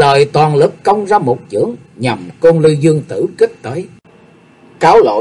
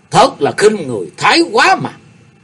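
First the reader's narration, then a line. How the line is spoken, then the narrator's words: Alarmed shout. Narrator (Vietnamese): Phổ Hiền đại sư biến sắc quát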